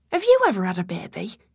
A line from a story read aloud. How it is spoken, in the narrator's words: calmly but icily, Grace said